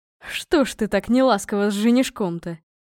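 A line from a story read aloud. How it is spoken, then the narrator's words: Chuckling. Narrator (Russian): хохотнул отец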